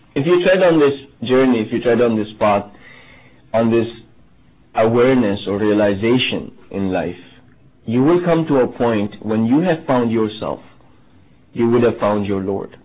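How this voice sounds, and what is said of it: Strong foreign accent. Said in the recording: “Obviously, I have a strong accent, right?”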